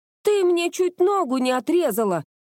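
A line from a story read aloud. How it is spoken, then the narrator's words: Screaming. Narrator (Russian): завопила она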